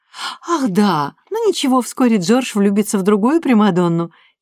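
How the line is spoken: Giggling. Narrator (Russian): хихикнула Люсия

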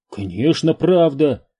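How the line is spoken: Exclaimed. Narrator (Russian): воскликнул Энди

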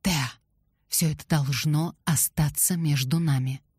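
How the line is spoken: Whisper. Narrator (Russian): шепотом

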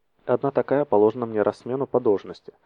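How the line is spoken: Grumbling. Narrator (Russian): пробурчал Арториус

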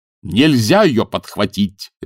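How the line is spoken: Barked. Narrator (Russian): рявкнул декан

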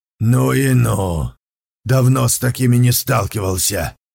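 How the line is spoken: Grumbling. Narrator (Russian): проворчал

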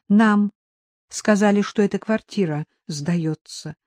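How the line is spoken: Peaceful calm tone. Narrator (Russian): сказал Аникеев мирным тоном

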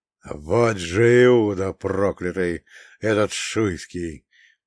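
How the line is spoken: Growl. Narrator (Russian): прорычал Иван Никитич Большой Адоевский

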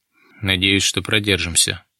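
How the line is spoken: Tired, smiling. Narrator (Russian): устало улыбнулся Дронго

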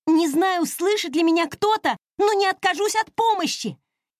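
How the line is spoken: Shout. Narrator (Russian): прокричала дельфина

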